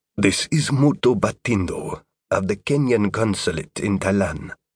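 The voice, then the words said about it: Distinct Kenyan accent. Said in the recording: “The speaker had a distinctly Kenyan accent.”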